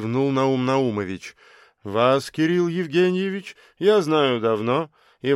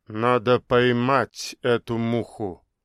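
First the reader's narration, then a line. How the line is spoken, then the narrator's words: Muttering doctor. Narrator (Russian): пробормотал главврач клиники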